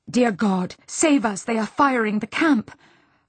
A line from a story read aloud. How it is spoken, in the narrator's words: her nurse gasped